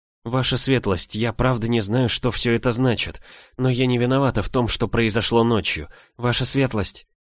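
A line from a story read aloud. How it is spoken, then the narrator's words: Pleading whisper. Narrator (Russian): прошептала я, взывая к нему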